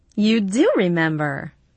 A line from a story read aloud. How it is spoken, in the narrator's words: she laughed again